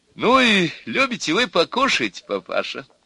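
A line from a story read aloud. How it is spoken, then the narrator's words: Cheerful, into ear. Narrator (Russian): весело сказала мать невесты на ухо деду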